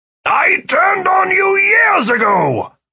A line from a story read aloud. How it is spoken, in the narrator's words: Philip cried